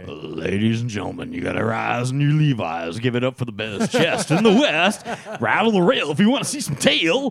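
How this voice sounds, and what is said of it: Lazy strip club DJ voice. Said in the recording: “really stripper lazy voice ... Stripper voice, yeah. Really lazy stripper DJ.”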